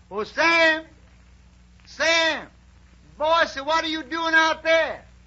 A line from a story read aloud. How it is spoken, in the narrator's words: he hears a voice hollers